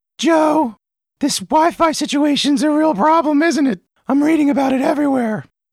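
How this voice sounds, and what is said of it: Imitates another person's voice. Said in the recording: “my impression of her”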